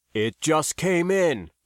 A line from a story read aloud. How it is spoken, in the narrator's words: Jev cried